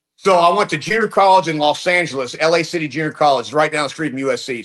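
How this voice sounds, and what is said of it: Texas accent. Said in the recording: “You sound like you're born and raised in Texas. When did you start getting the accent?”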